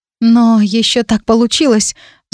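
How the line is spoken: Sighing. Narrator (Russian): вздохнула я

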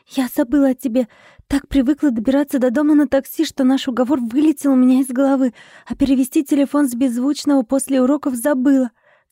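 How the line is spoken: Rapid nonstop chatter. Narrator (Russian): тараторила она без остановки

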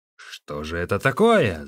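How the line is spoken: Shout. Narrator (Russian): закричал он

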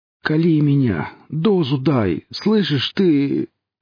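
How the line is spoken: Moaning. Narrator (Russian): стонал гризли

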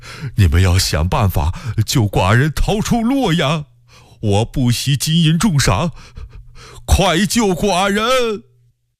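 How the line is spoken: Panicked, breathless, trembling voice. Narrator (Chinese): 福王大为惊慌，边喘气边声音打颤地说

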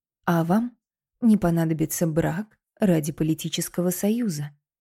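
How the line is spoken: Quiet addition. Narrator (Russian): тихо добавил

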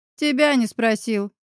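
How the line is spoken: Barked. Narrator (Russian): рявкнул Кирилл

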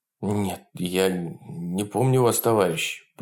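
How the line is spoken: Pale-lipped frightened mumble. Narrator (Russian): побелевшими губами бормотал Николай Иванович

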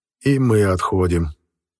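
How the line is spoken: Grim. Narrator (Russian): мрачно промолвил Бахерев

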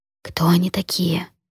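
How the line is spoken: Quiet question. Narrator (Russian): спросила столь же тихо

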